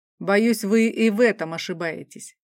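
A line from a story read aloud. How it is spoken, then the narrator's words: Snort. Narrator (Russian): фыркнул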